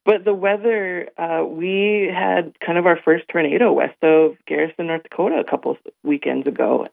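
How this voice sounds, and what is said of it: Hoarse, worn-out voice. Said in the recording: “I've got allergies, and so my voice is a little shot too. And I was singing all day yesterday ... hooting and hollering and screaming ... my voice is a little off today”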